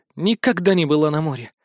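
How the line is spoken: Sad sigh. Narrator (Russian): грустно вздохнула Мэри

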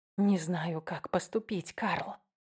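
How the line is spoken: Whispered. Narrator (Russian): прошептала я

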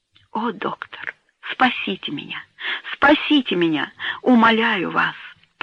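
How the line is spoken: Pleading whisper. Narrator (Russian): прошептал умоляющим голосом

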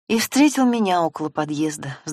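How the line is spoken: Sighing. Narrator (Russian): вздохнула Наташа

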